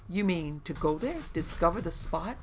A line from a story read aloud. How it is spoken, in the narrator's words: asked the young man eagerly